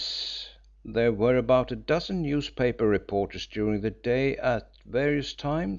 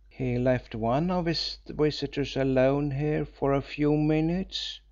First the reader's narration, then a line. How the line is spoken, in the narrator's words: said Hill in a voice which was little more than a whisper